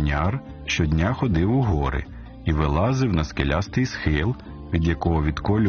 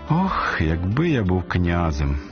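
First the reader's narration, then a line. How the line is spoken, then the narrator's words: Sighing stonecutter. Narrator (Ukrainian): зітхнув каменяр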